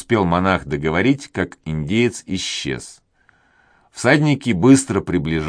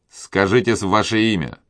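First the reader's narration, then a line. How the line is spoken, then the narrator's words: Angry tone. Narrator (Russian): продолжал тот же голос гневным тоном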